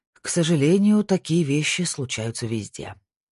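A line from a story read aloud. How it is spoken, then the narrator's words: Sighed, male. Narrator (Russian): вздохнул он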